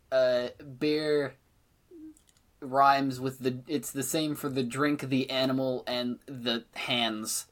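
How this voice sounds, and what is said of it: Speaks with a noticeable accent. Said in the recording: “Sorry, my accent.”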